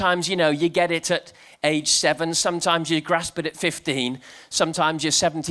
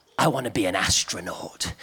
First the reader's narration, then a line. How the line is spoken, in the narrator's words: she'd whisper